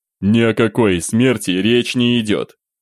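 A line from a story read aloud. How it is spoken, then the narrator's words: Openly irritated. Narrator (Russian): Уже откровенно раздраженно отреагировал Романов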